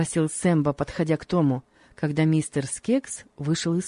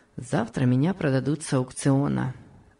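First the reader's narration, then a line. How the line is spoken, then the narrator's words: Calm reply. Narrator (Russian): спокойно ответил Том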